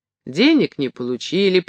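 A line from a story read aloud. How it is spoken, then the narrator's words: Sharp. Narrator (Russian): прибавил он резко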